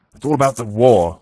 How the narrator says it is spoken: the Count shouted down the table

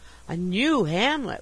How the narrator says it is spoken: exclaimed, fascinated

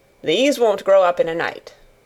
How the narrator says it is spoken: said Weatherstaff

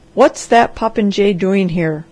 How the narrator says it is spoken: thundered Dr

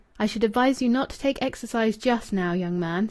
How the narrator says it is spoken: said the doctor

